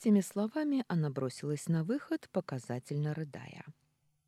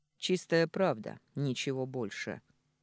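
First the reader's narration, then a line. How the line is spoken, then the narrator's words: Blunt, rough statement. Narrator (Russian): грубо констатировал Сергей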